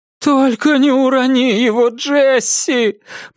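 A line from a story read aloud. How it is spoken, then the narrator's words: Wife moaning. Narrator (Russian): простонала примерная женушка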